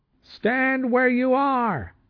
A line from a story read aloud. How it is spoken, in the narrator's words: the loudspeaker thundered again